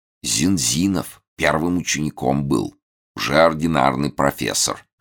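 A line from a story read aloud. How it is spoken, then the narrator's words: Envious whisper. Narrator (Russian): шепнул Захаров, как показалось, с завистью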